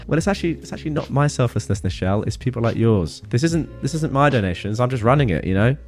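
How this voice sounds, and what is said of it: Accented, calming male voice. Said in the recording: “Your accent, calming voice”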